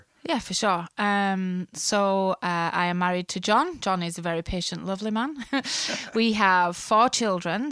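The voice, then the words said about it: Speaks with a noticeable accent. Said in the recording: “You're nervous about the accent, aren't you? ... I just think nobody will understand me. I'm going to have to try and speak slower.”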